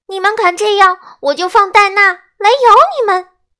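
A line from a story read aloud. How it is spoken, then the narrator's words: Straining shout. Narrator (Chinese): 爱丽丝尽力喊道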